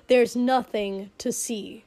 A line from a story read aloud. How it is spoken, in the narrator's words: Shoto snapped